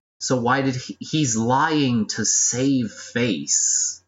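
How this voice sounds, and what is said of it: Speaking very slowly. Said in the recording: “saying it so slowly.”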